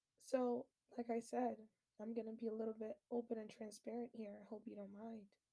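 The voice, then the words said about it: Hoarse, nearly lost voice. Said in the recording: “I am under the weather. My voice is completely gone ... my throat hurts”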